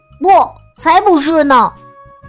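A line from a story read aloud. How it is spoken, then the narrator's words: Loud retort. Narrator (Chinese): 富兰克林大声反驳说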